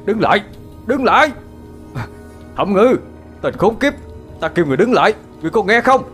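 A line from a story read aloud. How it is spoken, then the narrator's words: Thunderous roar. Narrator (Vietnamese): tiếng gầm thét động trời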